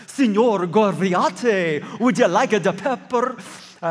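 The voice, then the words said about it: Mock Italian accent. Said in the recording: “It kind of sounds Italian, doesn't it?”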